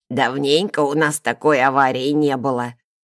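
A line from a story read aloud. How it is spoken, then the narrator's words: Plain. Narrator (Russian): сказала она мне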